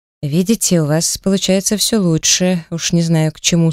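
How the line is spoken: Plain. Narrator (Russian): сказал мужчина

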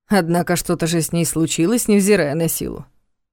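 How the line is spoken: Snort, wry grunt. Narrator (Russian): хмыкнул Соболев

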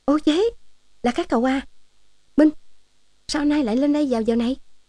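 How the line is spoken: Sudden exclamation. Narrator (Vietnamese): chợt kêu lên

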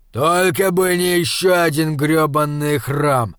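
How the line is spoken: Grumbling. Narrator (Russian): проворчал Лам

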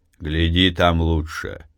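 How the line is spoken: Quiet. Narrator (Russian): тихо сказал

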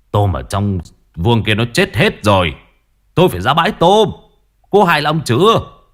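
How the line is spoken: Angry shout. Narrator (Vietnamese): Ông quát

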